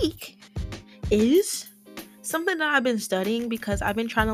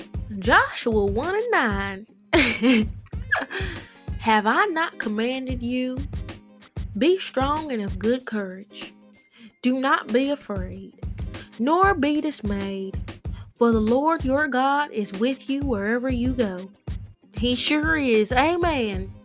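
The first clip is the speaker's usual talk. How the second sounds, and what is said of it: Put-on Southern US accent. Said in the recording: “I'm going to read this in a southern accent”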